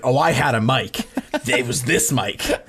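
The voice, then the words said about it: Imitates another person's voice. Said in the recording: “A pretty good Zach impression.”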